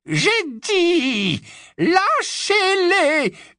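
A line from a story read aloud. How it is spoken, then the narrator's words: Piercing scream. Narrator (French): hurla-t-elle d'une voix perçante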